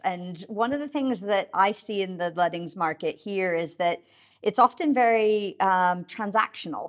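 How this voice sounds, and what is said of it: American accent. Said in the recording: “you can probably hear from my accent. I'm originally from the US.”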